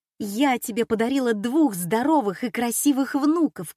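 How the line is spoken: Shouting. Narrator (Russian): кричала Катя

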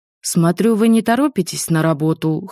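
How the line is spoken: Snorting. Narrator (Russian): хмыкнул он

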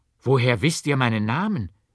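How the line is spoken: Exclaimed. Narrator (German): rief aus

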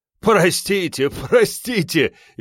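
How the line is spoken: Loud cheerful laughing announcement. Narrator (Russian): весело хохоча, громко объявил

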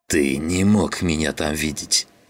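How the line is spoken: Hiss. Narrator (Russian): прошипел он

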